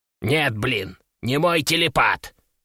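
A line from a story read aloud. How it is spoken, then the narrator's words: Scornful snort. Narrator (Russian): фыркнул Кеша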